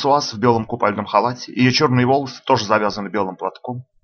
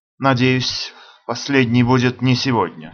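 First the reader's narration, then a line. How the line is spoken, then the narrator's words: Sleepy mumble. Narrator (Russian): сонно бормочу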